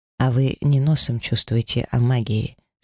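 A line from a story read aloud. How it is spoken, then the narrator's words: Calm dragon replying. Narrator (Russian): спокойно отозвался дракон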